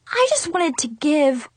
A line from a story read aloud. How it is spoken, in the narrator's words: I finally blurted out really loud